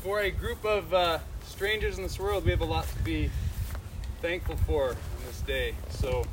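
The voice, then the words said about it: Loud projecting PE-teacher voice. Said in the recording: “I got a PE teacher voice. Can everybody hear me?”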